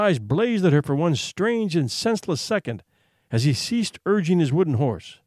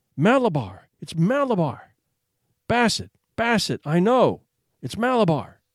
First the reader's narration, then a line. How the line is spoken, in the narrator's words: So the child cried, trying to get up and urge the rocking horse that gave him his inspiration